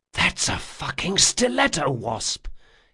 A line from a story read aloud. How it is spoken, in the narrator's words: he whispered to Jean